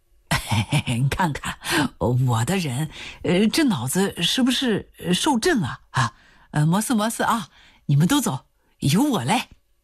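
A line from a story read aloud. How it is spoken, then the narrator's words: Grinning. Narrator (Chinese): 刘洪兵刺啦一笑说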